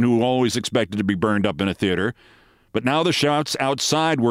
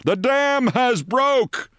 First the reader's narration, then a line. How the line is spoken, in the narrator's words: cried somebody